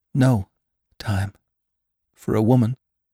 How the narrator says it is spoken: exclaimed Jane brokenly

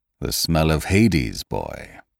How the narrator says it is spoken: he said grimly

